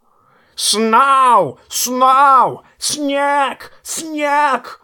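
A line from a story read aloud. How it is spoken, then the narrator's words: Excited bird screech. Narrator (Russian): орал ворон Мормонта, не менее взбудораженный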